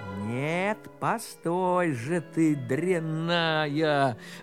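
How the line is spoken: Plain. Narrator (Russian): говорит Иван

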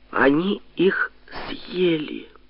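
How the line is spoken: Dreadful voice. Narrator (Russian): сказала ужасным голосом Зинаида

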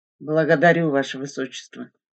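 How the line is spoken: Glum, dejected. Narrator (Russian): уныло сказал Михаил Дмитриевич

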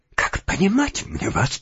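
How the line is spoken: Weak whisper. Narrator (Russian): прошептал он, наконец, слабым голосом господину Галяткину

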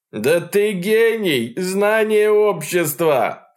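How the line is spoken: Shouting. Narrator (Russian): крикнул Проханов

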